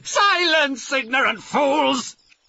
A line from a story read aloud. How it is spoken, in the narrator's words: shouted Blackheart